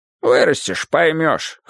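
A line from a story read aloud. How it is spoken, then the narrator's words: Snort. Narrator (Russian): хмыкнул он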